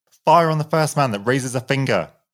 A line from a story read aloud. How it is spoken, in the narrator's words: shouted a full, manly voice